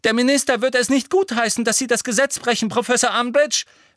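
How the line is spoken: Call out. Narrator (German): rief Hermine

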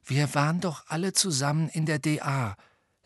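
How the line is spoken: Quiet. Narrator (German): sagte Neville leise

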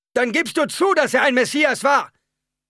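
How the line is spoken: Shout from crowd. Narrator (German): schrie die Stimme aus der Menge zurück

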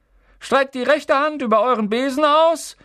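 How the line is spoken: Calling out. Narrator (German): rief Madame Hooch

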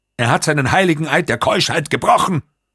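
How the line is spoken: Screaming. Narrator (German): Der Camerlengo schrie nun

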